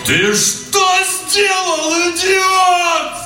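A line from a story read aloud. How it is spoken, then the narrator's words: Yelled at top of voice. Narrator (Russian): заорал Данил во все горло, и его крик поднялся под крону дуба и эхом разнесся по окрестным участкам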